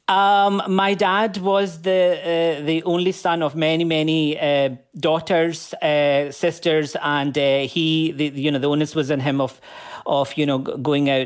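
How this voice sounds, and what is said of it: Scottish accent. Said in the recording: “That's a Scottish accent, I hear.”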